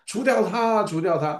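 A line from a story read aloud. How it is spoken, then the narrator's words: Crowd shouting. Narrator (Chinese): 后面人在跟着喊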